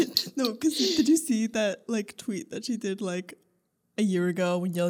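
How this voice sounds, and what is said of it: Usual voice. Nothing is said of it.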